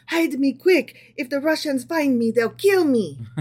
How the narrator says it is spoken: In a tremulous voice, he pleaded with the tailor

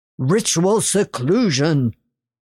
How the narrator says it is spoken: he bellowed

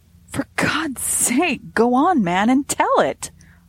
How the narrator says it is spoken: I cried, for the suspense was getting more than I could stand in my nervous condition

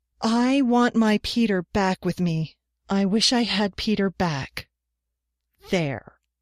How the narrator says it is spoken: declaimed in a ringing voice

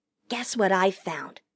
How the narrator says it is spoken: Pip Emma whispered

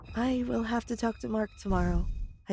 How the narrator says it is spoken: I said sadly

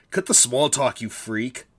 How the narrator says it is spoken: Skull sneered

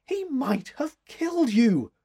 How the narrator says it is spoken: exclaimed

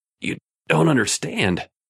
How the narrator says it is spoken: Raymond gasped

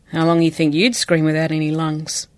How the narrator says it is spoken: He sighed

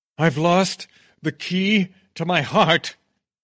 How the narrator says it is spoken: shout, overcome by strange emotions

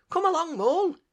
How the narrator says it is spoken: he said anxiously

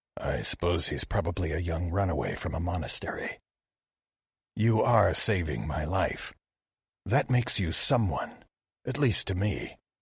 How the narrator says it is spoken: Kinori murmured

